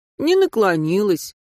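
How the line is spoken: Dejected grimace. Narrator (Russian): уныло сморщился Серега

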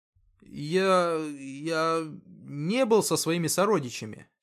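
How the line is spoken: Hesitant. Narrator (Russian): неуверенно начал Артем

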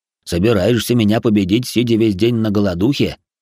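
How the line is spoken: Half-orc's snort. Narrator (Russian): хмыкнул полуорк

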